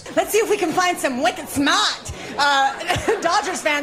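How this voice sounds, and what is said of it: Attempted Boston accent. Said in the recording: “Los Angeles broadcasters trying to speak in a Boston accent”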